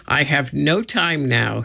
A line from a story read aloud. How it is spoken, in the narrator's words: he said